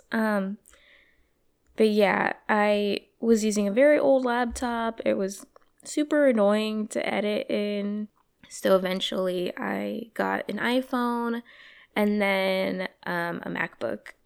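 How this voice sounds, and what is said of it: Slightly hoarse voice. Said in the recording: “sorry about my voice. I'm recording this in the morning and it's still a little hoarse.”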